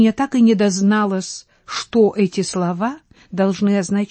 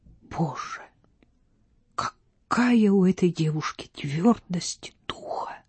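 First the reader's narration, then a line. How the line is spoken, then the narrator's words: Whispered. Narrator (Russian): Рита прошептала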